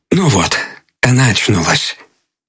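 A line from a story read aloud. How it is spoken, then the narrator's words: Said softly. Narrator (Russian): Он сказал тихонько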